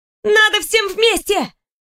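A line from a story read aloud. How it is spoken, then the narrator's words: Little girl shouting. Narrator (Russian): закричала невысокая девчушка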